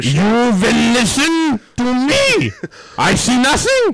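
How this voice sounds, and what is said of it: Put-on German accent. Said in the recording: “do it in the German accent, because they were from Bavaria.”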